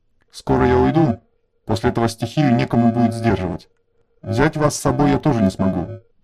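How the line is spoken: Mutter. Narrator (Russian): пробормотал он

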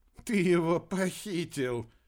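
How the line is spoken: Giggle. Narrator (Russian): хихикнул Масан

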